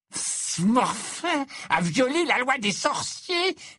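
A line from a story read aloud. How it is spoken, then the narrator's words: Pompous monotone imitation. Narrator (French): répéta Gaunt en imitant la voix d'Ogden d'un ton pompeux et monocorde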